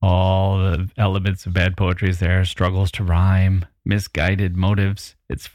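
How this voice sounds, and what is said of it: Usual voice. Nothing is said of it.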